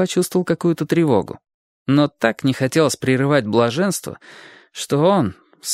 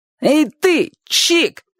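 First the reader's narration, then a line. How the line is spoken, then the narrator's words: Boy's shout. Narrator (Russian): крикнул мальчишка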